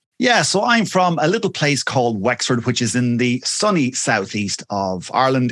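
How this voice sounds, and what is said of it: Irish accent. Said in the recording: “your gorgeous accent”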